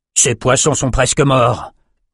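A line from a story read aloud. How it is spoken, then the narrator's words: Big creature growling. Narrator (French): grogna un grand Norouquaille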